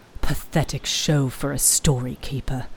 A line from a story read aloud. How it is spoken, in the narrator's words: she heard Abin grumble